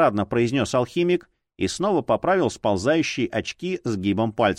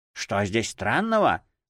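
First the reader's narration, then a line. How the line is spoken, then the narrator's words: Puppeteer's snort. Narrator (Russian): хмыкнул кукольник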